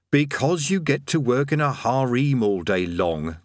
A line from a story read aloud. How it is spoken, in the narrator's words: they chorused slowly